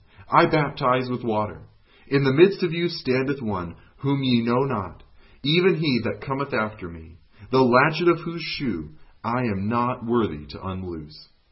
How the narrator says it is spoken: he cried

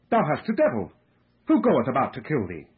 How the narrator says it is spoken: they exclaimed

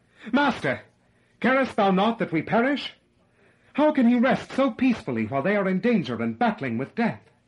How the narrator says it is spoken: In amazement and despair, exclaim

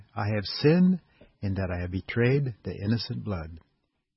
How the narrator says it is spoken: Judas Iscariot, after betraying his Lord, exclaimed

